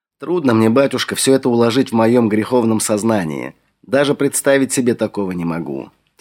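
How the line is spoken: Heavy heartfelt sigh. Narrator (Russian): тяжко вздохнул я из глубины души

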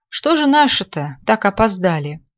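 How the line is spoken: Cheerful. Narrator (Russian): весело проговорил Алферов

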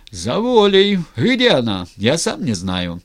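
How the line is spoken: Loud guffawing. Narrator (Russian): Разин громко заржал

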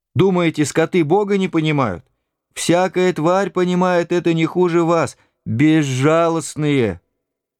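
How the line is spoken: Old woman shouting angrily. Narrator (Russian): бабушка гневно закричала на них

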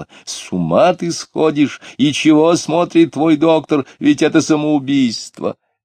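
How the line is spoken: Angry shouting. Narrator (Russian): Марина сердито кричала

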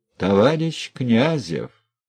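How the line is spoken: Dry, official voice. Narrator (Russian): сухо, казенным голосом заговорил председатель

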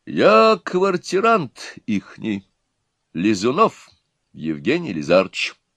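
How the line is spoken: Calm explanation. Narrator (Russian): спокойно пояснил непонятно кто

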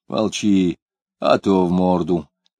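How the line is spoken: Very calm, unthreatening. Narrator (Russian): сказал он очень спокойно, без угрозы

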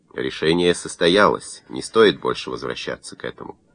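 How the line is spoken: Dry, curt. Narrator (Russian): Домбровский сухо сказал

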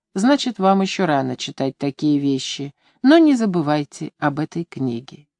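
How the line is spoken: Calm remark. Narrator (Russian): спокойно заметил

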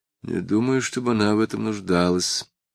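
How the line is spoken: Muttered. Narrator (Russian): пробормотал он

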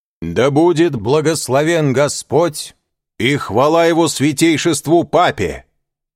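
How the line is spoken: Loud, clear declaration. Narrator (Russian): произнес он громко и отчетливо

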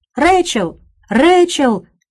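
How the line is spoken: Sharp shout. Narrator (Russian): резко закричал он

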